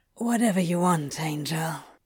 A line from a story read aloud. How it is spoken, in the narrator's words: he whispered, surrendering to Aziraphale's will